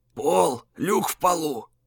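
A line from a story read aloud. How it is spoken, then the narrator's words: Old man whispering. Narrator (Russian): шепотом сказал старик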